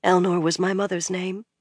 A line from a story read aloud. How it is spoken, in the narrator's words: she said softly